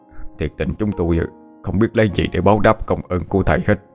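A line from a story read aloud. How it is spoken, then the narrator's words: Effusive thanks. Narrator (Vietnamese): cảm ơn thầy rối rít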